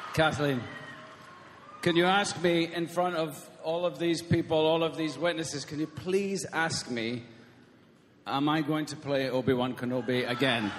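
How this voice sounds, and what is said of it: Scottish accent. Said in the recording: “his Scottish accent”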